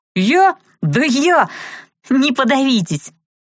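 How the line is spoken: Giggling. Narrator (Russian): хихикнула я

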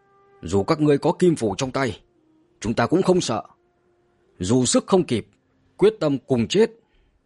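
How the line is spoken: Angry defiance. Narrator (Vietnamese): Vân Chân Tử giận dữ đối mặt

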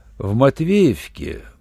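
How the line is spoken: Drawling. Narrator (Russian): протянул Руальд

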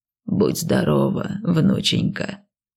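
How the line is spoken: Creaky old woman's thanks. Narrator (Russian): поблагодарила бабуська все тем же скрипучим голосом

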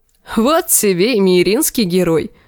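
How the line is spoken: Laughing. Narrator (Russian): засмеялся Дарио

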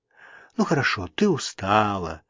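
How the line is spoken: Mumble. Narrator (Russian): пробормотала Мэнли

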